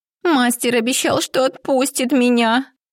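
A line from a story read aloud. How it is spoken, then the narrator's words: Whimpering. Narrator (Russian): прохныкала она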